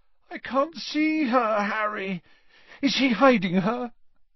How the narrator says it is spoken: Ron chose this moment to moan

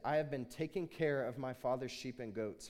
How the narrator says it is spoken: he said

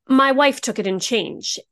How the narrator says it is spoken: he blurted

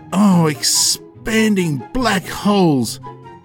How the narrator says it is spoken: Curtis exclaimed

